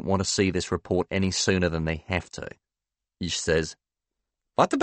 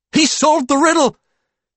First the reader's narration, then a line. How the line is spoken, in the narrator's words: He exclaims